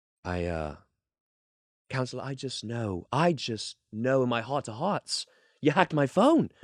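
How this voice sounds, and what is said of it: Prince Harry impression, British accent. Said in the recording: “your impression of Prince Harry on the stand in a British accent ... that's not bad ... that's better than I was expecting”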